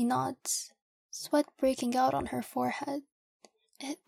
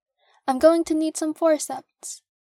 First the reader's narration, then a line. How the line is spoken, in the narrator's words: yell into the corridor